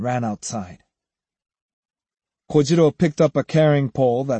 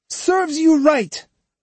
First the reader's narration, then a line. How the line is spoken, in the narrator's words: He spat out